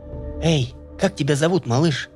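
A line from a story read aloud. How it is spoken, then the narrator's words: Quiet opening. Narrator (Russian): Тихо начала разговор Таня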